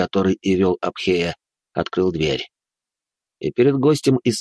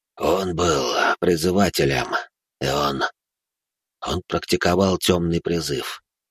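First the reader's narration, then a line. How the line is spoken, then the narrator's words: Sighing, father. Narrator (Russian): вздохнул отец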